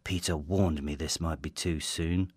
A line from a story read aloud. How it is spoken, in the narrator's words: murmurs